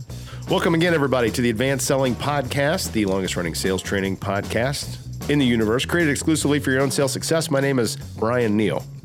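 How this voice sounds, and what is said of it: Nasal, congested voice. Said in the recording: “Do I sound nasally? ... Yeah, you do. ... I feel nasally.”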